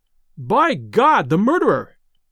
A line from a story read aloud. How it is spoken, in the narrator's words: he cried